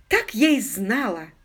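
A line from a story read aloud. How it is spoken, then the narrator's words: Exclaimed. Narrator (Russian): воскликнула леди Констанс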